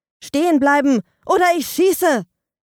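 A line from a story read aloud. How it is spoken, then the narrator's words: Shouting. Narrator (German): rief Andi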